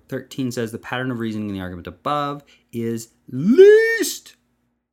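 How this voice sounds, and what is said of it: Heavy vocal emphasis on one word. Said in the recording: “you can tell by my voice, by my calibrated vocal inflection, that least was in all caps”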